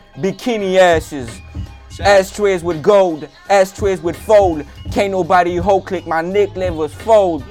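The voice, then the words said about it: Screaming rap delivery. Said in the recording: “Sorry if I'm screaming, people.”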